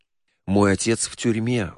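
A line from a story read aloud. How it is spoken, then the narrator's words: Sighed. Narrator (Russian): вздохнул Ричард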